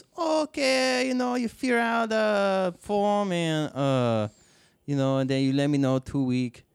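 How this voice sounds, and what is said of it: Imitates a thick accent. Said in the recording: “his accent was so thick”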